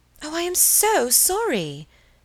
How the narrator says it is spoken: cried Helen

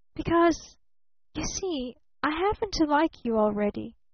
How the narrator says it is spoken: whispered little Eve Edgerton

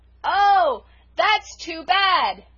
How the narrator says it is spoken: shouted poor Felicity

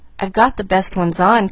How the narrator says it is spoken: confessed Pollyanna anxiously

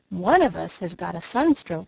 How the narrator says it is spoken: he exclaimed

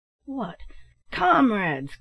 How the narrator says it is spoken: cried Black Jim with an oath

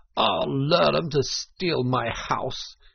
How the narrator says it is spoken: he cried

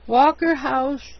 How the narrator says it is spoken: he moaned

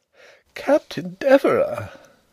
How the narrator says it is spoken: exclaimed several voices

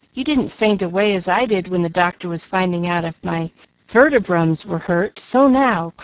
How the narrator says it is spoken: cried Jill, bound to carry out her point

